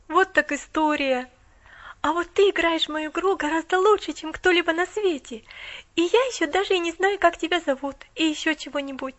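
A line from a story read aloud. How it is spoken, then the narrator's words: Awed exclamation. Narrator (Russian): Воскликнула Поллианна с благоговейным страхом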